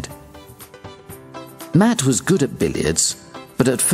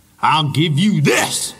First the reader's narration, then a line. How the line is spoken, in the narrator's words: shouted Beauregard angrily